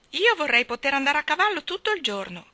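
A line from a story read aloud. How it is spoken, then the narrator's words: Shouted. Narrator (Italian): gridò Jane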